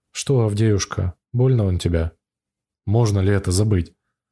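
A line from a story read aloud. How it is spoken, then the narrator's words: Muffled voice, choking on tears. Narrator (Russian): Голос его звучит глухо, как у больного, и слышу, что в горле у парня слезы кипят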